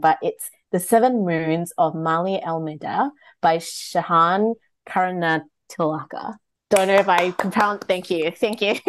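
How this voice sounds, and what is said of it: Reads very slowly. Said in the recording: “read this very slowly”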